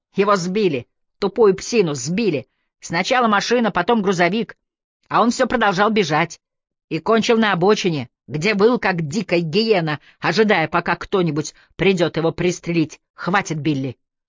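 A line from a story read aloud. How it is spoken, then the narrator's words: Barked. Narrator (Russian): рявкнул Олфилдер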